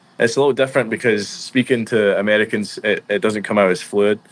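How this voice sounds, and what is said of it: Scottish accent. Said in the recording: “break out the Scottish accent for us”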